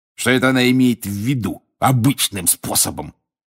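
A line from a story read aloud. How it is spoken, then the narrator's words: Snorting. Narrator (Russian): фыркнул он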